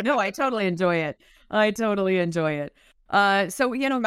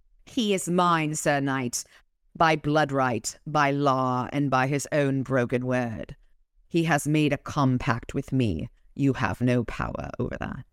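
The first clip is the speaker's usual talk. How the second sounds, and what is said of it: Poor imitation of an English accent. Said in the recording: “I used an accent for you, and I'm sorry to all of my friends in England. I know my English accent sucks”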